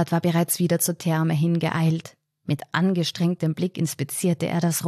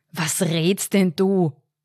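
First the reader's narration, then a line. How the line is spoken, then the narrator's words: Boss blustering. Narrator (German): polterte der Chef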